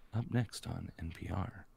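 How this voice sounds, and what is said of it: Low, soft public-radio announcer voice. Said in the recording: “radio voice ... You get like slightly closer to the mic. ... Turn down the volume a little bit and drop your voice into a nice little...”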